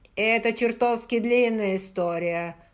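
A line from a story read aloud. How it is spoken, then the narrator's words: Angry. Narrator (Russian): зло проговорил Джейми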